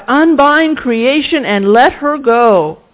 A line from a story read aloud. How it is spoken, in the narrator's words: God of wonder, you cried out